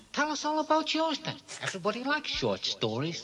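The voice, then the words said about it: Wise guy ventriloquist dummy voice. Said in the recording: “he's got this kind of wise guy voice ... Anthony Hopkins doing the voice”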